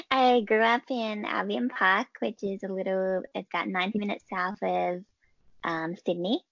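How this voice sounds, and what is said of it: Australian accent. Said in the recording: “I'm Australian. ... they can tell from your accent.”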